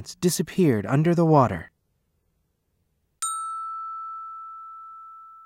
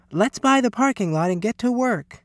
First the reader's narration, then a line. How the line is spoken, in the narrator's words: cried Miss Sievers